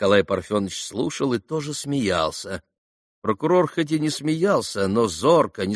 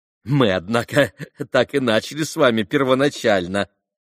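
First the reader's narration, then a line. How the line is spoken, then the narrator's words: Laughing reply. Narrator (Russian): отозвался, все продолжая смеяться, Николай Парфенович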